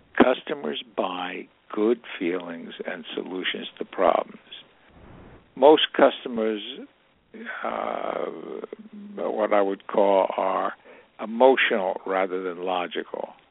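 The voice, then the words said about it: Hoarse, strained voice. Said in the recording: “I'm losing my voice a bit here”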